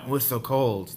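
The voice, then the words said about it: Put-on Russian accent. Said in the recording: “That's my Russian accent. ... That's good. I like it.”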